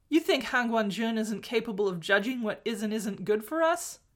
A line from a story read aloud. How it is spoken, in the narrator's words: Mo Xuanyu laughed again, more gently